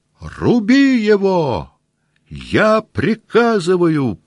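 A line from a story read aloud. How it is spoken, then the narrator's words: Shouted. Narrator (Russian): прокричал Ростопчин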